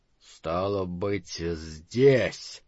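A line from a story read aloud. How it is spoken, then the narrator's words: Hoarse voice. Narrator (Russian): хрипотца в его голосе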